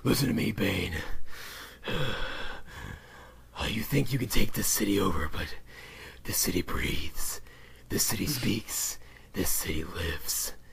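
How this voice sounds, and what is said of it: Batman character voice impression. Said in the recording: “My Batman impression is so good”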